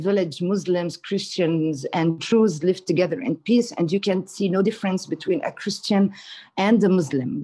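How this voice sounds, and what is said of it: Arab accent speaking English. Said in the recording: “people like are confused a little bit about my accent... where's the accent from? ... I'm an Arab”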